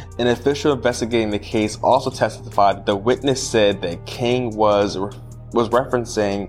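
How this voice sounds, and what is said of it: Usual voice. Nothing is said of it.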